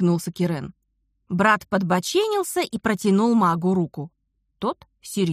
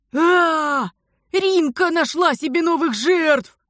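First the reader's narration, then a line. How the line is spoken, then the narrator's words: Sepulchral howl. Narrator (Russian): Замогильно взвыл Дар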